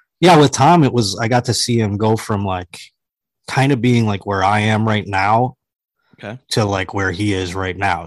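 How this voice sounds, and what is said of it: Strained, fading voice. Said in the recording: “I don't know why my voice is leaving my body.”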